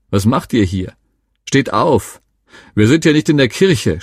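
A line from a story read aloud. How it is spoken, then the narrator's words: Scolding, mocking. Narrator (German): schimpften und spotteten sie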